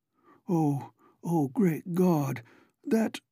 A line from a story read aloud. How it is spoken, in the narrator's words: moan half inaudibly